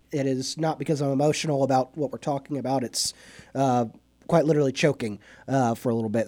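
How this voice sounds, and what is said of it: Voice affected by a cold. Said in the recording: “tell by my voice, I'm getting over a little bit of a cold. So if I get choked up”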